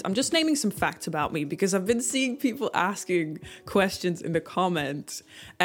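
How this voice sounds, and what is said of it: Dutch accent. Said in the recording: “I am Dutch. That's why I have this strange accent.”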